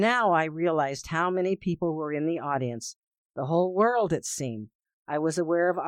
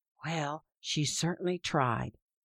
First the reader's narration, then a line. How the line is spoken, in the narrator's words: his mother whispered back